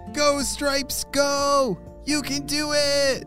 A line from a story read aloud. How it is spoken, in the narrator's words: shouted Emma